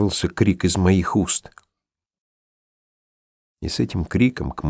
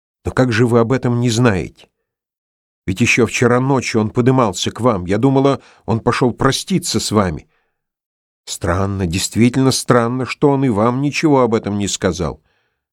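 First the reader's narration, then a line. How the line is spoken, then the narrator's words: Sudden sharp question. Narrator (Russian): вдруг резко спросила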